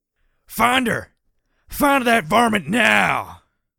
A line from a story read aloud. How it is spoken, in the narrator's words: hollered Sidewinder